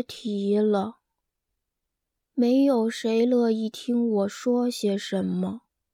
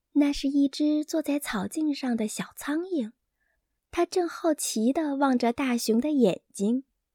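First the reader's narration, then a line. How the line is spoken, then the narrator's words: Small voice asking. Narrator (Chinese): 他耳边的一个小声音问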